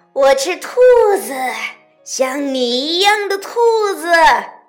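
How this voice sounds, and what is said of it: Harsh, grating character voice. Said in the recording (Chinese): “用刺耳的声音说”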